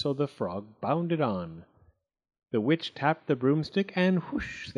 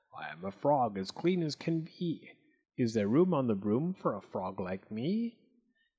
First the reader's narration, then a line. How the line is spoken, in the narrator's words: said with a croak